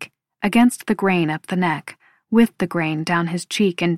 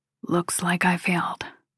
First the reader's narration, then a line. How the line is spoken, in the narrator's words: says, barely above a whisper